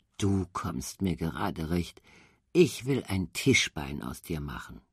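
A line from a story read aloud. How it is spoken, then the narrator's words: Cheerful muttering to himself. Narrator (German): wurde ganz heiter, brummte vor sich hin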